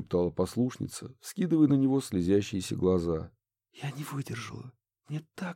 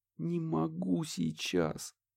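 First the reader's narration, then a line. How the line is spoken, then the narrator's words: Moaning. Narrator (Russian): простонала Несса, протираясь лицом о его плащ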